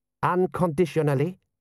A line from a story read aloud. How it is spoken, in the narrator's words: said General Ashal sharply